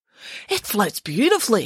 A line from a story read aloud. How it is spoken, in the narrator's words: exclaimed Michael